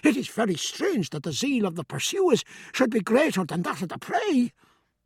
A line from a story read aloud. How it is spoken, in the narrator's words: gasped Stephen as he ran